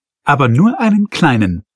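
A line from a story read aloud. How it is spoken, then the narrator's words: Laughing. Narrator (German): lachte die Karin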